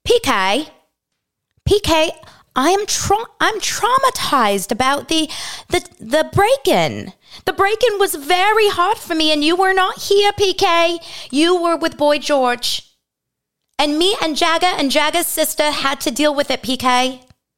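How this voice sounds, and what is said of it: Vague foreign accent impression of Dorit. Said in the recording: “do her accent. I don't think I can. Let's try. Well, it could be any accent. That's the thing about Dorit and Jessel. We just throw an accent out there”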